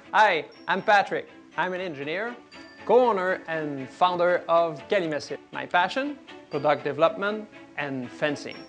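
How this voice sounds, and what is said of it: French-Canadian accent. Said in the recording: “their charming French-Canadian accents ... our French accent”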